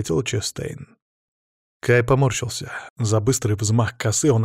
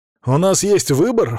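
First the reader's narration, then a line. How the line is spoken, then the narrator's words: Snort. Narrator (Russian): фыркнул я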